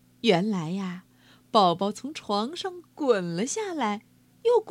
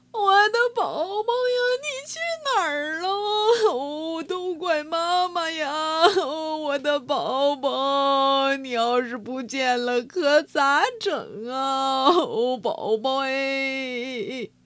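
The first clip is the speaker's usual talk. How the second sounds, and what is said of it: Loud wailing, crying voice. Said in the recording (Chinese): “胖嫂这么一哭，动静忒大”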